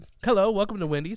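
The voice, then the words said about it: Put-on Australian accent. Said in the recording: “That's probably the best accent I've ever heard ... do. ... Australian.”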